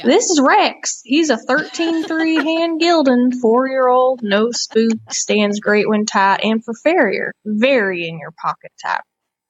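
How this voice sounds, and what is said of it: Put-on Southern accent. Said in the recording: “I'll try to do a Southern accent.”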